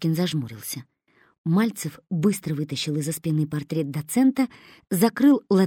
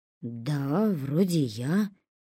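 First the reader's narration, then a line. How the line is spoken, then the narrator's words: Uncertain agreement. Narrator (Russian): неуверенно согласился Трошкин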